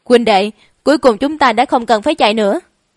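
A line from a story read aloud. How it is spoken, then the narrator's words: Tearful, angry. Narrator (Vietnamese): Diệp Nhất Hoàng vừa tự đồng tình rơi lệ, giận dữ nói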